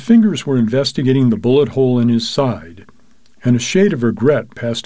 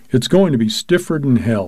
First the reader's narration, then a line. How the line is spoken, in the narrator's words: he said